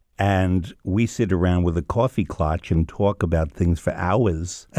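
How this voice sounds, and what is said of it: New York accent. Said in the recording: “I'm from New York ... I'm using my accent now.”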